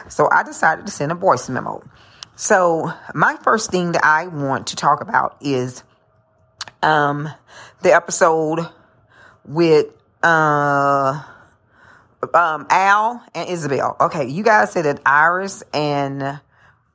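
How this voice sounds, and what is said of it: Savannah Geechee accent, fast speech. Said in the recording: “I do have that Savannah Geechee accent, so I do talk fast”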